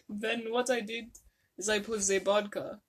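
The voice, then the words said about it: Put-on Russian accent. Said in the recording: “Russian accent”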